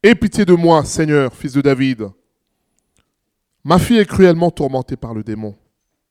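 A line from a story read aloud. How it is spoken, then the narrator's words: Woman crying out. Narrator (French): une femme cananéenne qui venait de ces contrées lui cria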